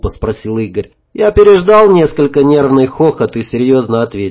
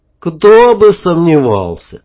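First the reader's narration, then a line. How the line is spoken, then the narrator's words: Sigh. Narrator (Russian): вздохнул Игорь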